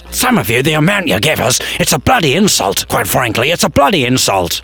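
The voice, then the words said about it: Angry ranting voice. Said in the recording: “I'm so angry, I'm losing my accent.”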